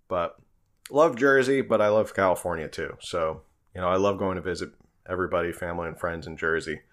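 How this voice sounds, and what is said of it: Mild East Coast American accent. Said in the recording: “I have a little bit of an accent ... You definitely have an East Coast accent, I can hear it. And that's not even that bad.”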